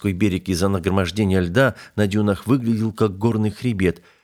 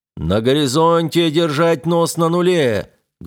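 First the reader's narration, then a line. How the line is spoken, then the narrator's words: Loud command. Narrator (Russian): громко приказал Плато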